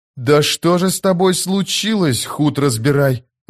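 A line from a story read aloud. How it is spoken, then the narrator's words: Breathed out. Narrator (Russian): выдохнул Кальп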